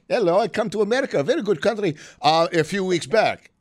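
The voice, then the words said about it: Put-on foreign accent. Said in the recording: “I don't know what accent that was”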